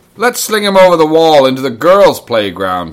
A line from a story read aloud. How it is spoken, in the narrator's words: he yelled